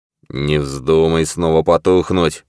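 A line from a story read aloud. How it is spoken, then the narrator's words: Grumbling. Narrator (Russian): пробурчал Ковальски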